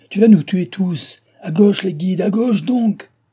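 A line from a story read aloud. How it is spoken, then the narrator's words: Shouted. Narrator (French): cria-t-il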